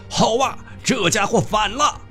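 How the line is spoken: Jealous crowd shouting together. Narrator (Chinese): 满座武士嫉妒的不得了，异口同声发喊道

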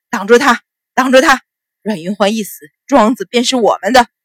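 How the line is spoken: Roaring. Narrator (Chinese): 冯四大吼

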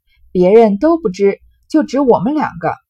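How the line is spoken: Laughing. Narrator (Chinese): 明烟笑道

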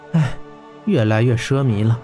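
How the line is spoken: Quiet sigh. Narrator (Chinese): 温莎叹了口气，小声道

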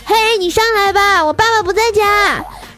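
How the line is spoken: Shouting down. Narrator (Chinese): 我就站在我们家阳台上朝下喊

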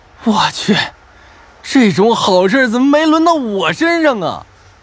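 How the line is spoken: Grief-stricken, furious roar. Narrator (Chinese): 张胖子悲愤无比的狂吼一声

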